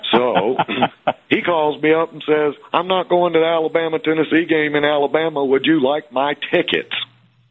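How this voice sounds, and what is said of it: North Alabama Southern accent. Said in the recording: “it's a northern accent. ... That's North Alabama.”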